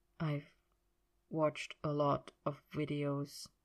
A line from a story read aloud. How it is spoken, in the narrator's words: said quietly